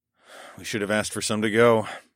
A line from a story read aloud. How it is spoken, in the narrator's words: I sighed